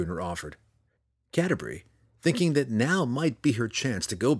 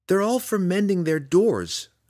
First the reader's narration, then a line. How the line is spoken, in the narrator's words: she retorted more sharply than she intended